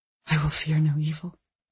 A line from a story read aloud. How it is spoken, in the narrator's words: she whispered in the ensuing silence